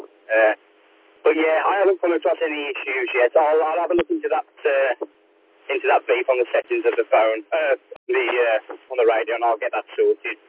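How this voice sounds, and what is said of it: Strong Black Country English accent. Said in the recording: “I'm from the heart of the Black Country, so I have a pretty strong accent as a yam-yam ... About a twang on your accent”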